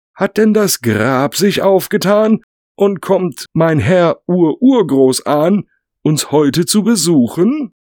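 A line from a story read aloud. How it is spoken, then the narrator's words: Gentleman calling out. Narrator (German): rief vom Hohen Rat ein Herr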